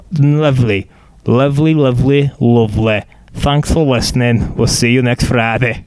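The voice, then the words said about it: Bad mixed Northern Scottish Russian accent. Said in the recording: “What accent do you think you just did? ... Do you think you were Northern Scottish? ... Russian? ... Maybe it was a mixture of all three. ... you tried Northern, I felt like. And it went Scottish slash someone from Edinburgh to Moscow.”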